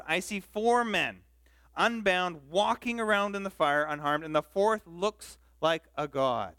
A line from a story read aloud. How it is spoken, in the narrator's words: Nebuchadnezzar shouted